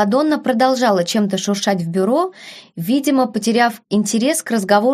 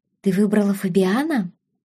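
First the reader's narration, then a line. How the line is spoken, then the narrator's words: Sigh. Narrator (Russian): вздохнула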